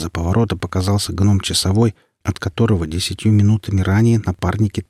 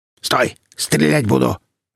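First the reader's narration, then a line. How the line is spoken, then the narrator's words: Barked. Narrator (Russian): рявкнул сектант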